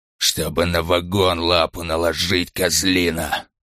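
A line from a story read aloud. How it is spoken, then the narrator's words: Hissed through barely parted lips. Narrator (Russian): прошипел Ланкау, почти не открывая рта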